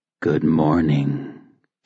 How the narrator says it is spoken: he purred

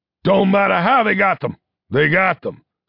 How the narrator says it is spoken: snapped Foley

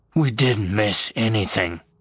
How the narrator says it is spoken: Hicks growled

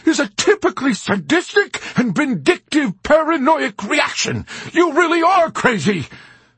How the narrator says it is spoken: he shouted in a sputtering rage

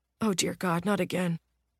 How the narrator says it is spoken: the younger police officer mutters

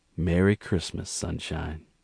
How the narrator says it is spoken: Gerald smiled at her and said gently

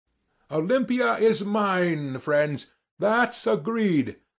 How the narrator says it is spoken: cried Sverkov

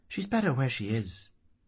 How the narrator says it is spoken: he said kindly

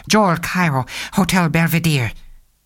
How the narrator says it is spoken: Cairo, who said quickly

